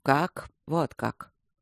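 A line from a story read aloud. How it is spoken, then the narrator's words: Quiet. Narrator (Russian): тихо сказал Михей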